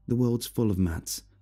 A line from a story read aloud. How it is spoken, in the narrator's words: I snapped